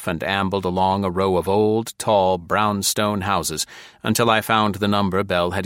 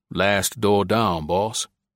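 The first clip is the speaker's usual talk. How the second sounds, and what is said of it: Uneducated Virginia accent. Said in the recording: “His accent was of an uneducated Virginia Negro”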